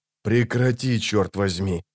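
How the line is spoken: Hissed. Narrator (Russian): прошипел Геральт

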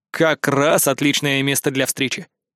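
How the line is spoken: Amused snort. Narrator (Russian): хмыкнул я

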